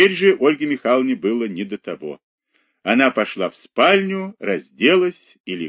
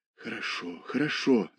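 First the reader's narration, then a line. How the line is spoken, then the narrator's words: Whisper. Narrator (Russian): зашептала она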